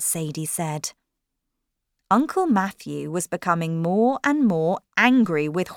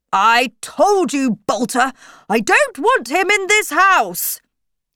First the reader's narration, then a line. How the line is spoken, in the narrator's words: shouted